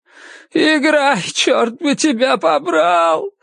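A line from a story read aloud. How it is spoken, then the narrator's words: Sobbing shout. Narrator (Russian): всхлипывая, крикнул он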